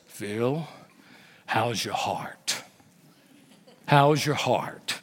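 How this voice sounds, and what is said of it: Deep-voiced imitation of an older man. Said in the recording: “He's got this deep voice.”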